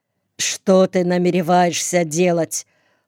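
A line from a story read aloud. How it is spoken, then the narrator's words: Cold question, mother. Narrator (Russian): холодно спросила мать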